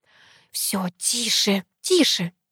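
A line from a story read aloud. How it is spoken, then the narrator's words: Hissed. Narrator (Russian): зашипела мама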